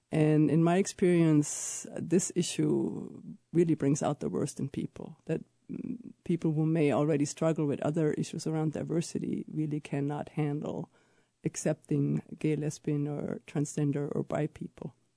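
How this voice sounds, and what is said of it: German accent in English. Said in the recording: “I have an accent. I'm from Germany.”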